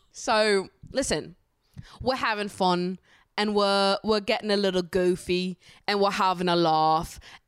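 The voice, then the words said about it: Put-on British accent. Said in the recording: “if you've got criticism for me British accent, will you take it elsewhere, babes? There's no criticism allowed for my accent”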